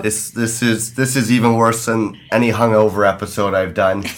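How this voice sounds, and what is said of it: Raspy, husky sick voice. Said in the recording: “hear in my voice, I sound like a sexy chick from the 50s with a raspy voice.”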